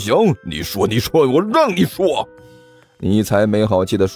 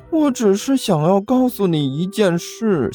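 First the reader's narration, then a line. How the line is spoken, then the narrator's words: Glum, tearful voice. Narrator (Chinese): 刘阿八哭丧着脸说道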